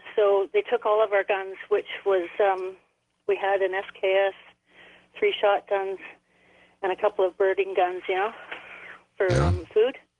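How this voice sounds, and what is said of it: Canadian accent. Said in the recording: “You sound Canadian.”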